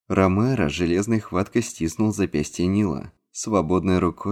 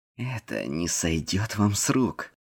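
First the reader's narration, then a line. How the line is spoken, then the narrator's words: Through clenched teeth. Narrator (Russian): процедил он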